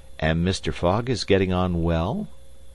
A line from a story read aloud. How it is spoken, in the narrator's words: asked Fix, in the most natural tone in the world